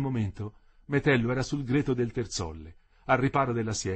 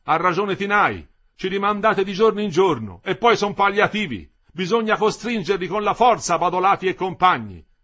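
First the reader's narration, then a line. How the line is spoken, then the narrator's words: Shouted. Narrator (Italian): aveva gridato Lindo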